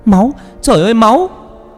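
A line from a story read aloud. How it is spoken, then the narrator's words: Screaming on waking. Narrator (Vietnamese): Vừa tỉnh dậy thì con Vân Anh hét lên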